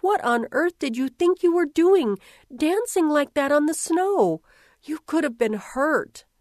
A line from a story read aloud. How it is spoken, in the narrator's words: exclaimed